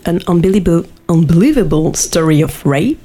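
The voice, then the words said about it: Impressive put-on accent. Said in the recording (French): “Quel accent formidable!”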